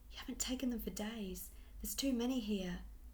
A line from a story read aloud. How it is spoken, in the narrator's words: his tone held anxiety